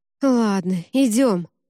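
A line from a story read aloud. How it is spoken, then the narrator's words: Sighing. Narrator (Russian): вздохнула Джема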